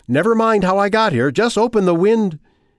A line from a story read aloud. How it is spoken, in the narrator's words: hear himself shouting instructions